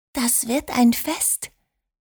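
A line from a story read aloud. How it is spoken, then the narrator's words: Whisper. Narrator (German): flüsterte Liliana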